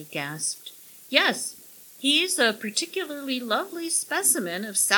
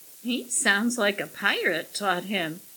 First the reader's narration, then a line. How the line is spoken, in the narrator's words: giggled Millie